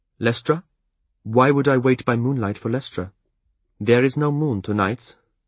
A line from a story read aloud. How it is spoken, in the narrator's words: Eliania pointed out sharply